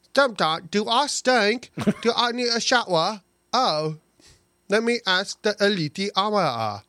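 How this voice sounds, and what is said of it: Imitates a fictional character's voice. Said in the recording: “your Lyra impersonation”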